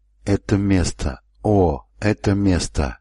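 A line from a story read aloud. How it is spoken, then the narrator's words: Breathless wheezing mutter. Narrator (Russian): Он слегка запыхался, взбираясь по лестнице, потому хрипел, беспрестанно бормоча себе под нос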